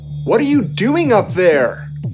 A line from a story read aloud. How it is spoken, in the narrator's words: shouting